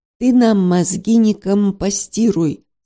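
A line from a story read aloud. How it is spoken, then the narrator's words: Angry growl, beaver. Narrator (Russian): со злобой прорычал бобер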